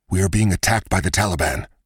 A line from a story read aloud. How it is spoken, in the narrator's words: the fighter whispers urgently